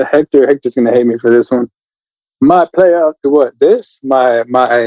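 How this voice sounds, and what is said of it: Usual voice. Nothing is said of it.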